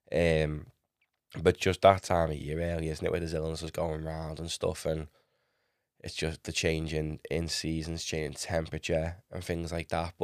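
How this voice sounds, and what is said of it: Sick, chesty, slightly wheezy voice. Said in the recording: “I haven't been well. I'm still just getting over it. You can probably hear it in my voice... I've had a really, really chesty cough myself, and a little bit wheezy myself”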